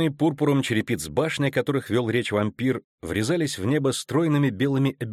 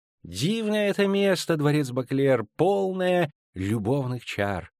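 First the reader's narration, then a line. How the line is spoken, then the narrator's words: Purring. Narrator (Russian): замурлыкал Рейнард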